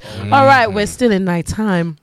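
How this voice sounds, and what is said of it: Put-on sexy voice. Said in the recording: “I'll explain it anyway with my sexy voice.”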